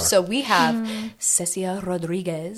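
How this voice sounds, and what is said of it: Put-on accent with rolled R's. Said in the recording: “did you like my accent? ... That was perfect. Those R's were just”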